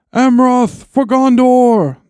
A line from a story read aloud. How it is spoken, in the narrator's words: cried